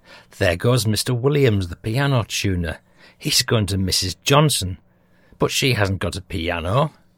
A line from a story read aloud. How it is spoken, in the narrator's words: Hontel exclaimed